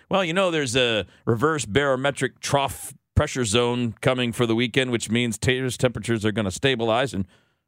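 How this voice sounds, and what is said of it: Imitates a weatherman's voice. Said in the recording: “my Dave Murray impression ... Actually, I could do a better one.”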